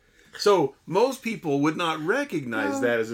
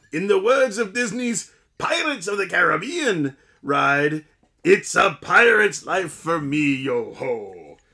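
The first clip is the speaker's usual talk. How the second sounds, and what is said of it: Put-on Scottish brogue. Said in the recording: “a Scottish brogue”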